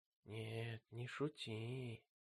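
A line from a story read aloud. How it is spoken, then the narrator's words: Trembling whisper. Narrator (Russian): прошептал Джейми дрожащим голосом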